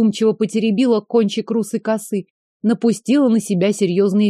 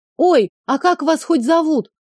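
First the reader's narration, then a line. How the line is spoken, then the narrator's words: Shouted after someone. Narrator (Russian): Крикнула вслед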